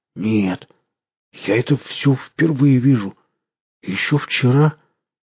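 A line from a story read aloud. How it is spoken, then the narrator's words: Strained, forced out. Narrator (Russian): Пересилив себя, смог лишь выдавить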